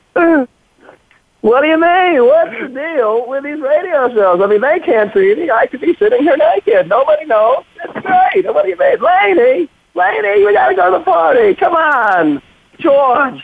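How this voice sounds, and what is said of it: Jerry Seinfeld impression. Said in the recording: “you got to start with the Jerry Seinfeld ... Wow, that is pretty good”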